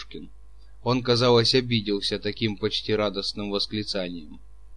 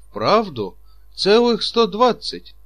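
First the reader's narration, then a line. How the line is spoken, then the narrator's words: Astonished exclamation. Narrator (Russian): воскликнул Чичиков и даже разинул несколько рот от изумления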